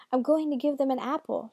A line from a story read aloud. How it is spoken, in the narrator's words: she shouted to Hansel